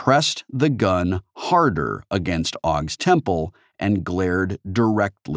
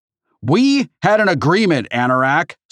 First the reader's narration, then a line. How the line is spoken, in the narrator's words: Sorrento shouted